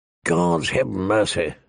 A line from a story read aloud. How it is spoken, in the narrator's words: the old bear muttered